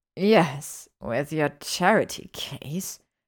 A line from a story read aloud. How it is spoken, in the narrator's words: he sneered